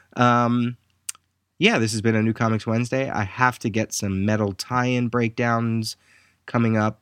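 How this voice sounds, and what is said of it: Tired, worn voice. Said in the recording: “Sorry about my voice. I'm just really tired.”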